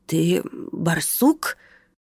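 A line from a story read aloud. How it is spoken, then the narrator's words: Hoarse, uncertain. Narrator (Russian): прохрипел пациент неуверенно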